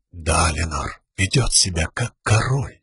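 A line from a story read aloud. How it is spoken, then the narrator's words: Almost silent mutter. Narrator (Russian): пробурчал он почти беззвучно, так тихо, чтобы лишь Сил услышала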